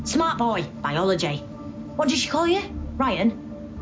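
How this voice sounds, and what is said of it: Generic Northern English accent. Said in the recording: “Northern. ... Generic northern. She's more, yeah, sort of northern.”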